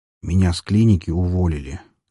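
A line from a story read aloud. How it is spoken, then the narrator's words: Quiet voice. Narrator (Russian): наконец проговорил он негромким голосом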